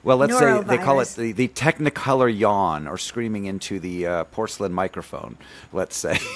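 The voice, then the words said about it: Low, weak, nearly lost voice. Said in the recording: “I sound a little different today, just slightly different ... my voice is down here ... My voice is virtually gone”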